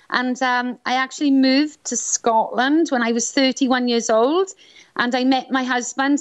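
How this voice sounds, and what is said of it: Welsh accent. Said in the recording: “I'm Welsh, as you can tell maybe by my accent.”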